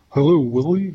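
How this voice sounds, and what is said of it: Elf character voice. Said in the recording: “that elf impression ... Maybe I can practice an elf ... I think that was better than mine”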